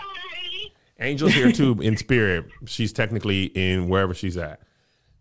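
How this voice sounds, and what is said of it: Usual voice. Nothing is said of it.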